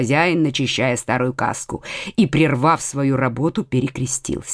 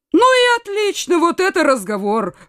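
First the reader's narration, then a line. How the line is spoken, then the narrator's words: Exclaimed. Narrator (Russian): воскликнул Коконас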